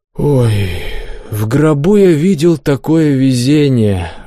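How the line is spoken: Sighing. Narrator (Russian): вздохнул Добрыня

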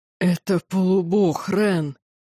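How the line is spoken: Growling. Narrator (Russian): прорычал он

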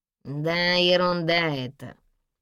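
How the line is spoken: Nasal, congested voice. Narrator (Russian): отозвался тот гнусавым, словно простуженным голосом

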